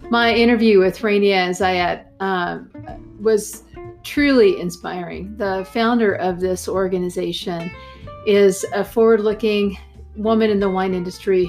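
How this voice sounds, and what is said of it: Texan accent. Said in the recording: “Austin, Texas, which is where I'm from, if you can't tell by the accent.”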